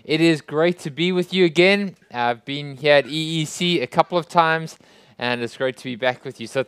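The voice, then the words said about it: South African accent. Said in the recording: “my strange accent. I come from South Africa”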